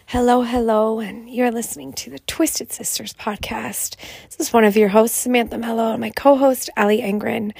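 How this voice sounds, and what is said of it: Raspy, hoarse voice. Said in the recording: “I excuse my raspy voice right away. I have had a sinus infection, double ear infection.”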